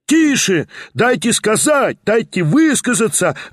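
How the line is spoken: Yelling. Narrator (Russian): вопила другая часть

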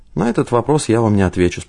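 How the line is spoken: Calm. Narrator (Russian): спокойно сказала Ивашура

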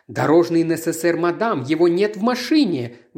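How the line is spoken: Exclaimed. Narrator (Russian): воскликнула она

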